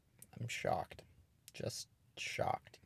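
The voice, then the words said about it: Sarcastic mock-shocked delivery. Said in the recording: “Can you hear the shock in my voice?”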